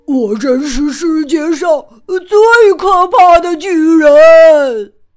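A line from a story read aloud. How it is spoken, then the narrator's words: Roaring. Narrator (Chinese): 他咆哮着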